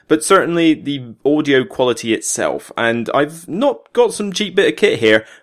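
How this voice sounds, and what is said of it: Somerset English accent. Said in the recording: “my Somerset accent”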